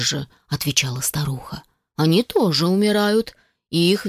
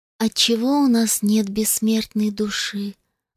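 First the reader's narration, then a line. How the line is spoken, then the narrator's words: Sad mermaid's speech. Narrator (Russian): грустно сказала русалочка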